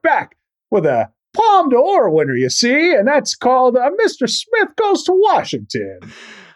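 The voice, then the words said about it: Jimmy Stewart impression. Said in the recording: “this impression's going to live for at least one more show ... it's me, Jimmy Stewart ... We'll see if that impression gets better.”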